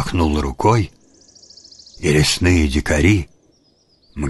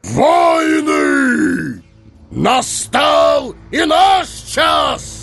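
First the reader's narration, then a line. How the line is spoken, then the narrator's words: Thundering voice. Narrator (Russian): прогремел его голос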